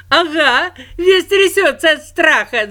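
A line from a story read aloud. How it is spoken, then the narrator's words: Laughing children. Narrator (Russian): засмеялись дети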